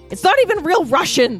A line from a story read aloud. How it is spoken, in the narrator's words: the recycler shouted